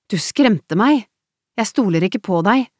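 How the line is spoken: Angry voice. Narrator (Norwegian): svarte Emilie med sint stemme

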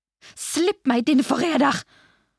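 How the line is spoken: Screamed. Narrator (Norwegian): skrek hun mot kramkaren

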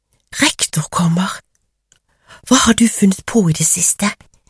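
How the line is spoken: Whispering backward. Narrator (Norwegian): hvisket Cecilie bakover

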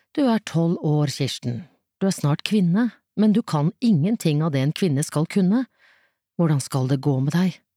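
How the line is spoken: Sighing. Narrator (Norwegian): Reidun sukket

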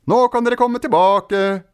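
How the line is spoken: Shouting. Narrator (Norwegian): ropte Ola

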